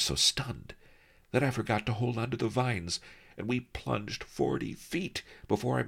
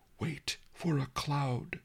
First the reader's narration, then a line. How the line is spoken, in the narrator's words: Master Lee whispered